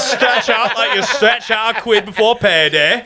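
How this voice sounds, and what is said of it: Put-on Yorkshire accent. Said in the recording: “The Yorkshire yoga.”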